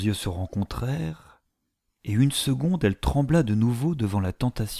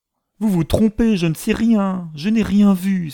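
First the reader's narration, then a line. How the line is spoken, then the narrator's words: Frightened, insistent exclamation. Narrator (French): s'écria-t-elle, cherchant à force de répétition à élever une barrière entre elle-même et ce péril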